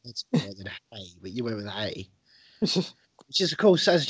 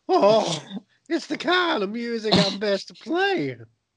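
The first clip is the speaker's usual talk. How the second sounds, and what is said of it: Squeaky teenage cartoon voice. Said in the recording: “now you sound a bit like the squeaky voice teen in the Simpsons”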